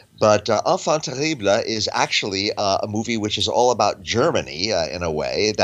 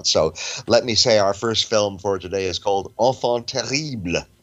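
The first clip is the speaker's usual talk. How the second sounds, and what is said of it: Deliberately bad French accent. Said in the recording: “my terrible French accent”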